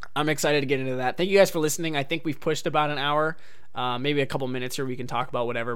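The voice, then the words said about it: Strained, tired voice. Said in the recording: “My voice is kind of killing me. I'm a little tired”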